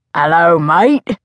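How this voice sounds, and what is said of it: Near-perfect put-on Cockney accent. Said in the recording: “in a near-perfect Cockney accent. is good with accents.”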